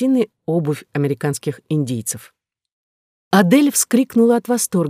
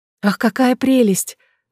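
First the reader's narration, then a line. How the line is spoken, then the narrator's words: Exclaimed. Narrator (Russian): воскликнула она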